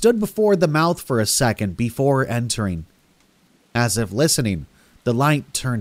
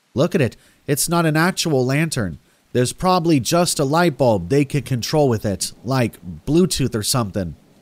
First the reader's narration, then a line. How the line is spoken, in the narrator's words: I said